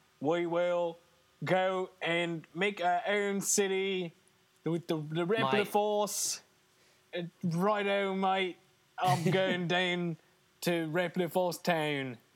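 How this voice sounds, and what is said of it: Bad put-on Australian accent. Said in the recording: “this weird Australian accent ... That's my worst. That's my worst accent I've done by far.”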